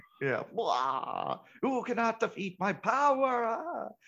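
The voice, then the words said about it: Over-the-top shouting villain impression. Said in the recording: “I love your impersonations”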